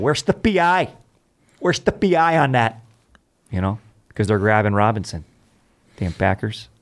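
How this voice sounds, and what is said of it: Put-on Wisconsin/Minnesota Midwest accent. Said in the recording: “I do my Midwest accent ... the accent you're doing is more Wisconsin, Minnesota”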